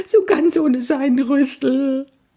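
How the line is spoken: Sobbing. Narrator (German): schluchzte er

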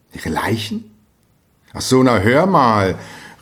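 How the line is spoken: Exclaiming, bursting into laughter. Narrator (German): rief Hans Castorp, und plötzlich geriet er ins Lachen

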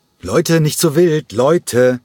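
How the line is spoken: Quick interjecting call. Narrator (German): rief Nikos Chalergis in einer winzigen Pause dazwischen

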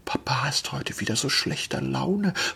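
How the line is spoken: Child's whisper. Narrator (German): flüsterte die Kleine

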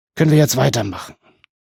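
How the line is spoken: Groaning. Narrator (German): Baelund stöhnte

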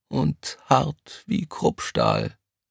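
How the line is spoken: Quiet reply. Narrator (German): kam es leise zurück

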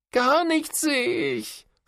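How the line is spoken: Sobbing. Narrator (German): schluchzt Florian

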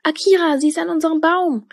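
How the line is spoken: Calling out. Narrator (German): rief Tilda

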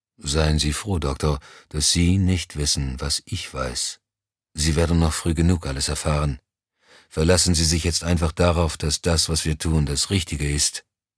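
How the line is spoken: Flat, toneless. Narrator (German): Moussant erklärte tonlos

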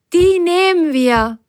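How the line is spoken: Calling out. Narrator (German): rief Biene Firlefanz zu

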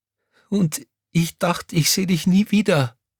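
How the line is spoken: Sobbing. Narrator (German): schluchzte Crescentia Rausch

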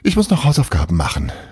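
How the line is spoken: Called out. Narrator (German): rief er

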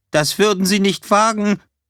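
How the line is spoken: Calling out. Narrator (German): Greenman rief

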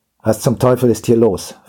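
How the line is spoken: Gruff demand. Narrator (German): verlangte er mit barscher Stimme zu erfahren

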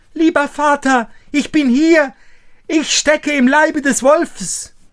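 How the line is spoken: Called out. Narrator (German): rief

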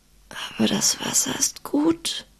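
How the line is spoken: Hoarse whisper. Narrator (German): sagte er leise, wobei seine Stimme nicht mehr als ein heiseres Flüstern war

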